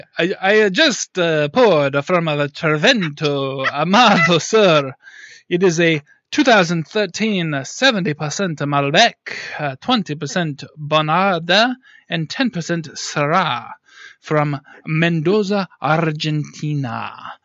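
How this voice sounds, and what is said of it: Put-on European accent. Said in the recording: “I need this in a European accent of some sort”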